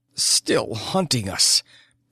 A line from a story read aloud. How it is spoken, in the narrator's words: Her voice was a groan